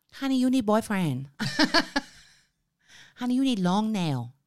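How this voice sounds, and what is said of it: Put-on Thai accent. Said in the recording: “do the Thai accent. Do the fucking accent. ... You asked for all the accents.”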